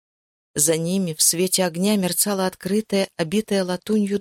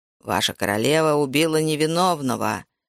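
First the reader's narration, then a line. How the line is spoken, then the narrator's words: Growling. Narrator (Russian): прорычал он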